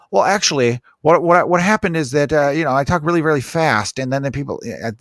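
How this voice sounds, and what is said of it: Fast nasal imitation of another person. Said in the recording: “best Ben Shapiro impression ... it's so fucking nasally”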